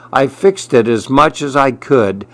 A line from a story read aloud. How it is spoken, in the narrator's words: sighed Sonia